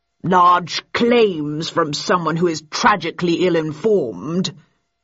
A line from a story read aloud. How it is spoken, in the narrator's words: he intoned patronizingly